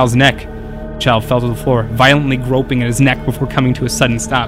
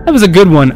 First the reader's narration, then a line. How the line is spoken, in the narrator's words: I said, laughing